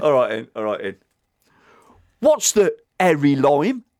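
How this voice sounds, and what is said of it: Put-on Cockney accent. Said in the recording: “in the native tongue of a Cockney ... shall I do it in the accent as well?”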